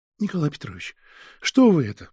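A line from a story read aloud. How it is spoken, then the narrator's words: Faltering babble. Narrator (Russian): пролепетала она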